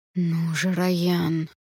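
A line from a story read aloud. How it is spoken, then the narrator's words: Through gritted teeth. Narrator (Russian): сквозь зубы процедил Калит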